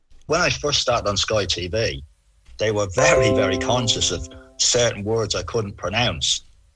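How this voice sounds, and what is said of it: Authentic Dublin Irish accent. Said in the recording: “you'd be able to spot an authentic Dublin accent if you heard one.”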